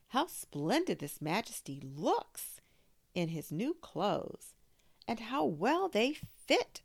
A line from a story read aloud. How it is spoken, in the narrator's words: everyone cried out